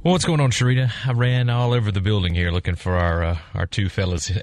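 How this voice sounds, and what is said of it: Out of breath, panting speech. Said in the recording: “Are you out of breath? ... Well, I thought I was in pretty good shape, but I stopped doing my little workout thing for a couple of weeks, and whew, man”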